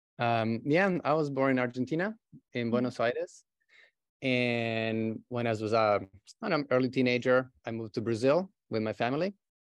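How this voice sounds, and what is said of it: Non-native English accent. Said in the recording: “Where is this amazing accent coming from?”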